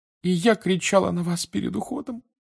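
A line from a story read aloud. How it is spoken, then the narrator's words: Sobbing again. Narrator (Russian): вновь зарыдала миссис Уизли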